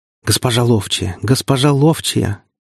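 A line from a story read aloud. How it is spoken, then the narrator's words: Joyful rapid chatter. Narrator (Russian): Радостно улыбаясь, протараторил трактирщик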